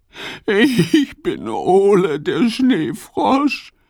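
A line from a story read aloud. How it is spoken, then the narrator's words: Sobbing. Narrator (German): schluchzt er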